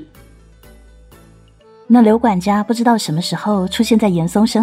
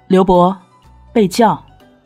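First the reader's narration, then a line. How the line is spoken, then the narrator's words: Calm, indifferent. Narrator (Chinese): 严嵩淡淡的说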